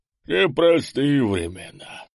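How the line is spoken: Sighing guard. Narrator (Russian): вздохнул караульный

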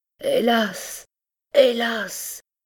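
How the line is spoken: Patient crying out. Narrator (French): criait le patient

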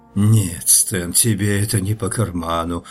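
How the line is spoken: Sigh. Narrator (Russian): вздохнул я наконец

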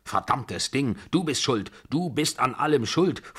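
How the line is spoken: Angry snapping. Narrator (German): fuhr sie mich wütend an

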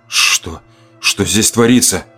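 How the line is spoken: Man forcing words out. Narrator (Russian): Наконец выдавил мужчина

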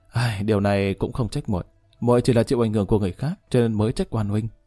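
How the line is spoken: Aggrieved sigh. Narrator (Vietnamese): Lý Kỳ âm thầm mừng rỡ nhưng vẻ mặt lại ủy khuất thở dài

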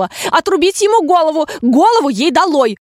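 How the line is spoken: Furious queen shouting. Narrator (Russian): А королева в ярости чуть ли не каждую минуту топала ногами и кричала

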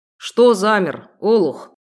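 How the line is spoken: Man growling. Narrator (Russian): В очередной раз на меня рыкнул полноватый рыжеволосый мужчина, управляющий транспортом

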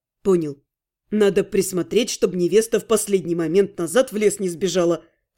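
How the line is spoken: Snorting smirk. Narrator (Russian): хмыкнул Ас

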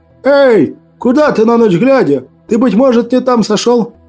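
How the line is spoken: Driver shouting. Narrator (Russian): Водитель крикнул

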